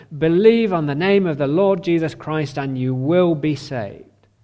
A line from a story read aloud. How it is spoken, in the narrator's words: As he swam around, he cried out